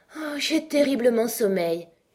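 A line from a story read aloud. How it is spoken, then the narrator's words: Moaning woman. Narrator (French): gémit-elle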